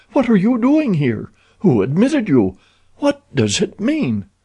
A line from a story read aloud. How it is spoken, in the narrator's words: she cried